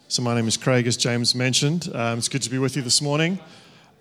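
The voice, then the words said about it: Soothing accent. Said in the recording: “they find my accent very soothing”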